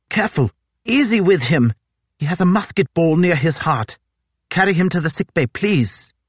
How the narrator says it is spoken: Goodsir exclaimed

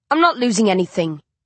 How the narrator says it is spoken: the man called Coley snaps

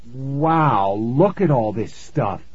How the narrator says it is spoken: Nikki exclaimed

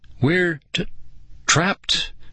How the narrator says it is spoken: Nicole stammered

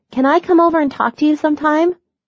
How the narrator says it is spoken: Mackenzie yelled

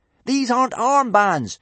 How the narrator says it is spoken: shouted Hiccup, desperately trying to save the situation

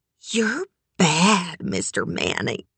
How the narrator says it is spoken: whispered humidly

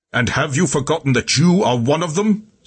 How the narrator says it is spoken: Scipio shouted

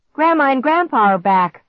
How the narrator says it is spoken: Clark shouted

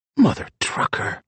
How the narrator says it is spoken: Zig muttered

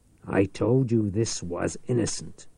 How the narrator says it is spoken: Reich said in a hard voice

